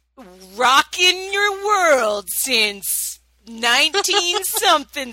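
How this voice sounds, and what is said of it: Sleazy morning DJ voice. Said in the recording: “my extra sleazy voice ... Your morning DJ voice”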